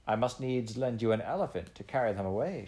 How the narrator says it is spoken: she said, laughing

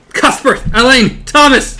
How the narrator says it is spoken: he screams

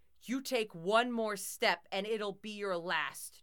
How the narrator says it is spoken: Jock bellowed

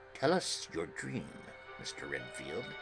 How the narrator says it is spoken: Van Helsing said in a quiet, grave voice

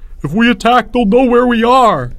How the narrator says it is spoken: Albert howled

